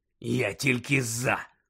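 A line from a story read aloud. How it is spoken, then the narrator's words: Growling. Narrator (Ukrainian): прогарчав Дикозор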